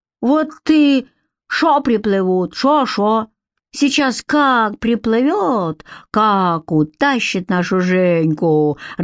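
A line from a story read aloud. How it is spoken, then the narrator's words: Deep booming laughter. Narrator (Russian): расхохотался басом парень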